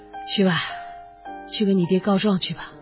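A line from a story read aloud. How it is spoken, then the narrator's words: Breathless, weak. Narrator (Chinese): 他气喘吁吁，脸色煞白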